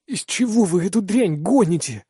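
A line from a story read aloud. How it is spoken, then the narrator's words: Hoarse question. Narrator (Russian): хрипло спрашиваю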